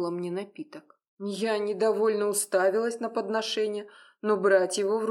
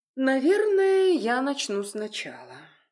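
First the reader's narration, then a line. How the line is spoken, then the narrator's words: Sighing. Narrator (Russian): вздохнула она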